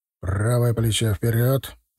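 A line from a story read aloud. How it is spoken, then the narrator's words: Quiet command. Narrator (Russian): негромко скомандовал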